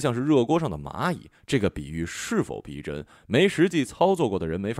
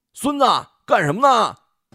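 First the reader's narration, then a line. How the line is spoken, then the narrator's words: Shouting. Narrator (Chinese): 高大山这么一喊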